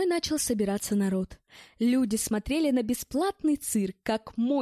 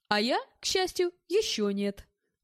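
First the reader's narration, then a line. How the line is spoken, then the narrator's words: Reply then laughing. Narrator (Russian): ответил я и рассмеялся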